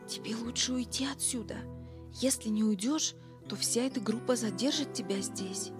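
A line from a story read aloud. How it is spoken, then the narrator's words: Whisper. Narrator (Russian): Марджи прошептала Биллу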